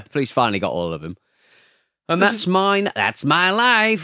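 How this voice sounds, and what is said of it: Washed-up old stand-up comic voice. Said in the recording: “My impression of Neil Hamburger ... He's like a kind of washed-up 70s kind of stand-up. Sort of joke character ... he sort of talks like this”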